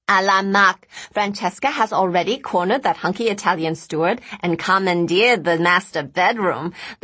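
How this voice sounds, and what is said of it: Sing-songy girlish character voice. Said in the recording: “the overly bronzed girl exclaimed in her sing-songy accent”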